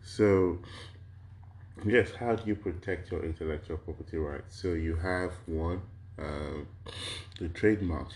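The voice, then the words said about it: Slightly harsh voice with a cold. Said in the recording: “I have a little bit of a cold ... I do have a little bit of a runny nose ... my voice kind of sounds a bit harsh ... I have a little cold.”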